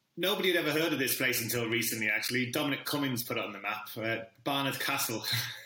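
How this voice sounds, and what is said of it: Northeast English accent. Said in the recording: “I'm originally from a very small town in the northeast of England. You can probably pick up from the accent.”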